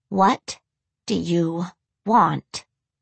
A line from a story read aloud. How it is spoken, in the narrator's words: Lydia asked through gritted teeth